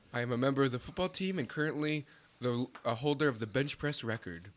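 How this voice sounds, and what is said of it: Put-on radio announcer voice. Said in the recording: “You're going for that radio voice.”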